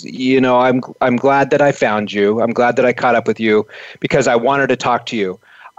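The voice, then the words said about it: Imitated European woman's accent. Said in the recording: “this one woman comes up to me in, in her accent ... she was from a European country”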